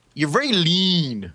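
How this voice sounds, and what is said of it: Imitates another person's voice. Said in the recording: “my imitation of what Calvin Klein says to Kramer”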